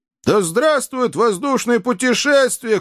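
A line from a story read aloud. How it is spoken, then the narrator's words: Shout. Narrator (Russian): крикнул Джо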